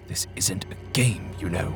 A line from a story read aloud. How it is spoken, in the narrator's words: Ashton hissed to his friend